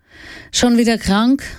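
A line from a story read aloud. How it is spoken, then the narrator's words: Weary sigh. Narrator (German): seufzte Mammy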